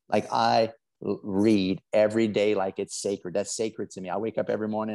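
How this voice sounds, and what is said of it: South Louisiana accent. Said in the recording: “I'm from South Louisiana. I got a funny accent.”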